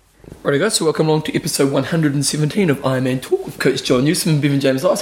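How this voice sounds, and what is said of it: Announcer-style radio voice. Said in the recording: “Put your radio voice back on ... The radio voice ... I use my radio voice in the intro”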